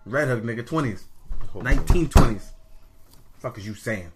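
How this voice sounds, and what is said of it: Brooklyn accent. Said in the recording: “My accent is from Brooklyn.”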